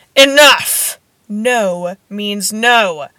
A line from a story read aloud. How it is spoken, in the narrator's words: Vernon roared, his face turning a sickly puce